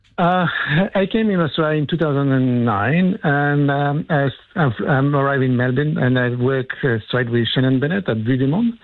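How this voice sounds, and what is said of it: French accent in English. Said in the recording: “you don't have the strongest Australian accent ... Occasionally, the French breaks through.”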